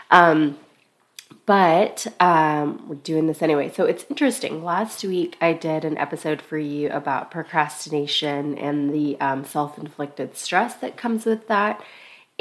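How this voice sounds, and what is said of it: Sick, deeper than usual voice. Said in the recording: “I am a little under the weather, so my voice is a little deeper than it usually is.”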